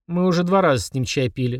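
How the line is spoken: Sigh. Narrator (Russian): вздохнул папа

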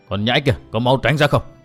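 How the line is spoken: Hot-tempered loud shout. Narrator (Vietnamese): Khoáng lục giáp tính nóng như lửa liền quát lớn

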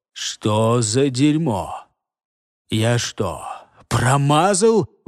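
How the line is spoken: Indignant muttering. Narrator (Russian): возмущенно пробормотал Илос

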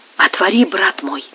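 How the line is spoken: Quiet. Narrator (Russian): тихо сказал монаху Изидор

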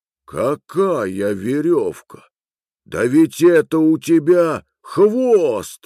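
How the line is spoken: Exclaiming. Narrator (Russian): воскликнул Гекка

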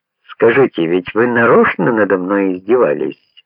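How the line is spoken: Cheerful question. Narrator (Russian): спросил он, все так же весело

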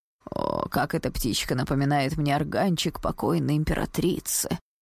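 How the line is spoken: Old courtier's sigh. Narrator (Russian): вздохнул старый придворный

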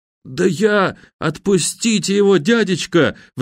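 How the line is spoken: Pleading. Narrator (Russian): взмолился объявившийся рядом Вонючка

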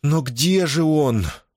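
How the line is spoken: Moaning woman. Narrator (Russian): простонала женщина

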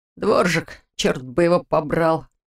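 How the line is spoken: Grumbling. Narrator (Russian): проворчал Ваня

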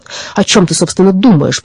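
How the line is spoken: Indignant. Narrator (Russian): продолжал он возмущенно

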